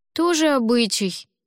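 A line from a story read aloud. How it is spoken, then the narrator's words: Long-suffering sigh. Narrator (Russian): страдальчески вздохнул Димка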